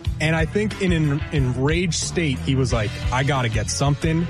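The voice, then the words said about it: New York accent. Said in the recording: “Sorry, where I'm from, we say Cronkite. ... Yeah, the New York accent, I get it.”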